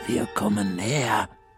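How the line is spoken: Whispered. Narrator (German): flüstert Frau Krüger

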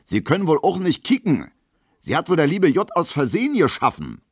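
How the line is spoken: Shouting. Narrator (German): schreit Gustav Schmelo

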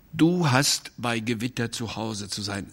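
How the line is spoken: Plain. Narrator (German): sagte er

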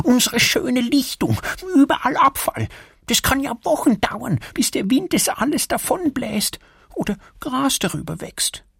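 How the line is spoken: Muttered. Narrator (German): murmelt Erik

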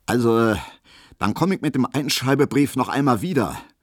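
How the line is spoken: Loud, solemn, official. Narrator (German): sagte Herr Schulze plötzlich sehr laut, sehr würdig, sehr ernst und sehr dienstlich

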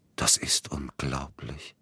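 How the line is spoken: Quiet. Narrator (German): sagte er leise

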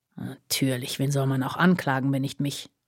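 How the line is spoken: Snorting mutter. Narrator (German): murmelte er schnaubend

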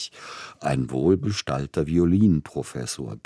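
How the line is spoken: Cheerful grumbling. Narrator (German): bestätigte lustig brummend Freund Brodsky

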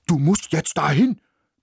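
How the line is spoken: Barked. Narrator (German): bellte

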